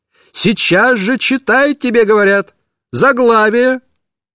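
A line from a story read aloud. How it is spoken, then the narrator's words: Shouting woman. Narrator (Russian): она кричала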